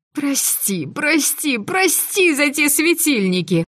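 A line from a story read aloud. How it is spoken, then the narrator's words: Penitent wail. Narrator (Russian): покаянно взвыла я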